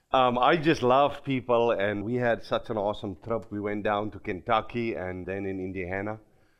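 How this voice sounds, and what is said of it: Non-American foreign accent. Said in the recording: “this guy's not from the United States. He got a different accent.”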